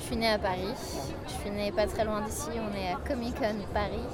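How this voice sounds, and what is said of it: Slight foreign-tinged accent in French. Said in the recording (French): “il y a un petit accent qu'on entend”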